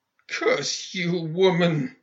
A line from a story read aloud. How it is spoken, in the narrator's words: he rasped